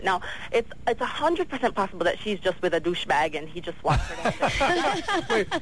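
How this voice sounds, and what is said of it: Poetic-sounding accent. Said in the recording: “I love your accent. ... It was just very poetic sounding.”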